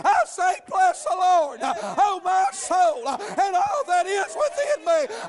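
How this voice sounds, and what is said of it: Loud shouting preaching. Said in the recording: “You think I'm shouting ... I'm just shouting”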